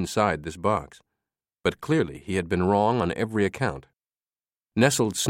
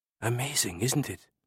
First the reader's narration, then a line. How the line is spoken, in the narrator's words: Sophie whispered